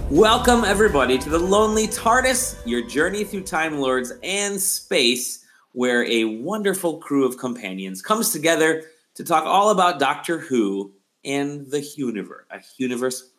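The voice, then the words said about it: Sore, strained throat voice. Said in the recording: “my throat is quite sore today”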